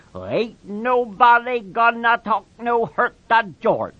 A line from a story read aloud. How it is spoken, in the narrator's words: he grumbled